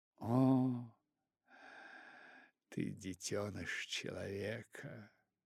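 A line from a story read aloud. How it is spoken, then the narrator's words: Tender purring. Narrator (Russian): очень нежно промурлыкала пантера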